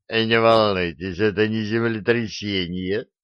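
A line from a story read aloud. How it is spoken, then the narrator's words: Drunken giggle. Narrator (Russian): пьяно хихикнул Дарамир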